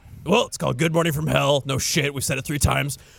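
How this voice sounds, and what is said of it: Slightly scratchy voice. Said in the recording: “My voice is already a little scratchy.”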